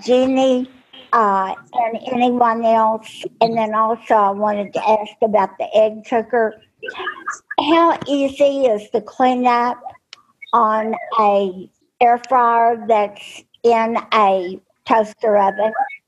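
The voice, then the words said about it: Southern US accent. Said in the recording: “I know I have a southern accent.”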